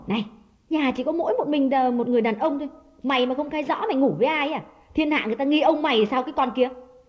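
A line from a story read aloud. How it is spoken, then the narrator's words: Harsh scolding. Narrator (Vietnamese): nàng ... gay gắt nói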